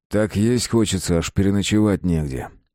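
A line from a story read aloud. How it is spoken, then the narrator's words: Calm grumble. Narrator (Russian): буркнул Марат, окончательно успокоившись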